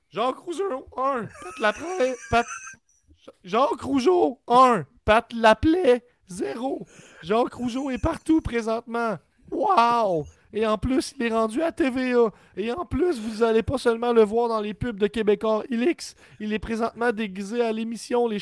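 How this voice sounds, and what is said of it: Mocking hater character voice. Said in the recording (French): “avec ta voix de haters”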